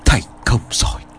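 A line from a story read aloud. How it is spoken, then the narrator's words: Quiet. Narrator (Vietnamese): Thầy Lương liền khẽ nói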